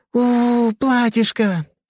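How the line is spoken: Joyful squeak. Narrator (Russian): все так же радостно пропищала Вика

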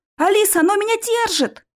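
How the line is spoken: Shout. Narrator (Russian): закричал я

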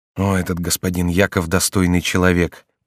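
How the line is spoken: Whisper. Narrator (Russian): прошептал Корнелий

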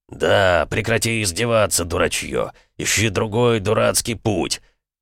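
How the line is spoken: Sulky grumble, calmer. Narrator (Russian): Вдруг, относительно успокоившись, надуто буркнул он

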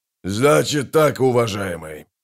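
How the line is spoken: Hoarse rasp. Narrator (Russian): прохрипел высокий

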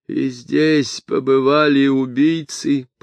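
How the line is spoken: Groaning. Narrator (Russian): простонал Эстер

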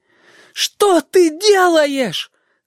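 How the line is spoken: Shouting. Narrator (Russian): закричал он

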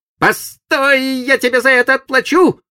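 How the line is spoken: Shouted farewell. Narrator (Russian): крикнув на прощание Сиду

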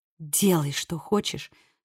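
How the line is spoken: Whisper. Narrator (Russian): шепнула она Коди

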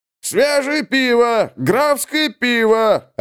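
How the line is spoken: Vendor bawling. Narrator (Russian): орал на верхней улице торгаш

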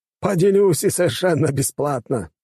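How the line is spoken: Laughing. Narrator (Russian): рассмеялся он

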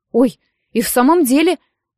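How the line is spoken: Exclaiming. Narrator (Russian): воскликнула Нэн

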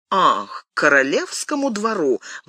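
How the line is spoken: Exclaiming with forced laugh. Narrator (Russian): воскликнула госпожа де Сен-Реми, пытаясь рассмеяться

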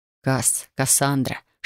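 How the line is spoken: Whisper. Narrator (Russian): шептал он

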